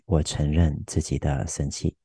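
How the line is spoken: Gentle, on exhale. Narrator (Chinese): 吐气的时候，温柔的告诉自己

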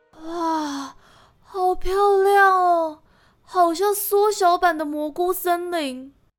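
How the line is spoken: Admiring. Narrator (Chinese): 丹影赞叹地说

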